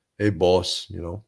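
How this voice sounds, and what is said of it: Put-on New York accent. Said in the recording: “that's how they say it with that New York accent.”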